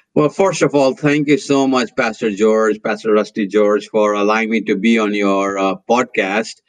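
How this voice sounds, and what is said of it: Indian accent. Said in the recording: “you can tell from my accent that I'm from somewhere else. And that somewhere else happens to be India.”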